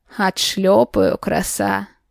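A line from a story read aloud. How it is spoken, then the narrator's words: Mock-threatening growl. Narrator (Russian): Псевдо угрожающе зарычал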